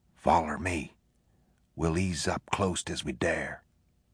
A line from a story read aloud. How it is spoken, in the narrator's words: Penny whispered